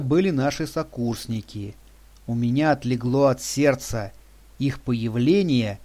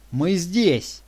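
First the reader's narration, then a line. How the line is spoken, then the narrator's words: Shouted reply. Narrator (Russian): крикнула в ответ Юля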